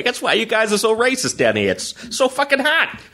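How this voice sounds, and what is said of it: Bill Burr impression. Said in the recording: “That's a bad Burr impression. ... No, I think it's real good.”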